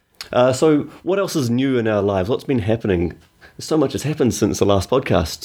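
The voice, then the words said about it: Strong New Zealand accent. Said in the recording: “my Kiwi accent's a lot stronger ... my accent gets much, much stronger again.”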